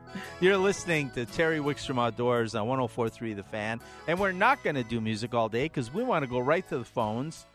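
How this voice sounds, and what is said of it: Congested head-cold voice. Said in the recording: “head cold voice ... I didn't know if my voice was going to hold up”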